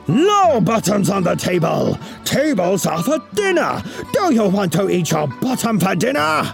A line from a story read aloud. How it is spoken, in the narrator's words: Chen turned the color of a raspberry ... he roared